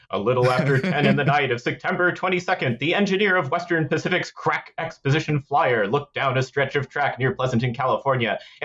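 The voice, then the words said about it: 1930s radio announcer voice. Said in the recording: “my 30s radio announcer voice.”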